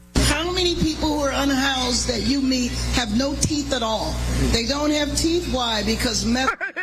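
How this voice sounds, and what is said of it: Imitates another person's voice. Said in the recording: “my impersonation ... my impersonation wasn't too bad”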